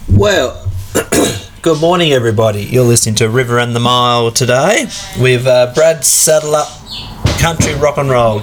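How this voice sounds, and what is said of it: Congested voice with a cold. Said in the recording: “My voice is not as good today. Runny old nose... I've had this cold all week and I can't get rid of it... just a rotten old cold”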